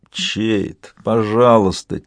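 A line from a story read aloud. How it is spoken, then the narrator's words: Quiet moan. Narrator (Russian): тихо простонал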